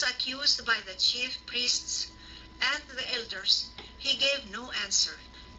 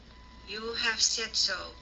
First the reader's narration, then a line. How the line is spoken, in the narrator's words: Jesus replied